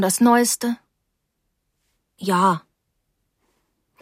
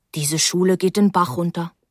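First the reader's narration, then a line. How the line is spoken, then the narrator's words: Plain. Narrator (German): sagte er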